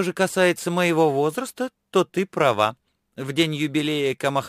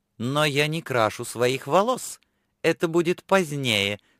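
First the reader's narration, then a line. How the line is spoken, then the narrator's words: Calm objection. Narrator (Russian): спокойно возразила Лифа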